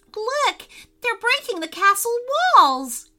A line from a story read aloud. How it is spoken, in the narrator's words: cried Maddie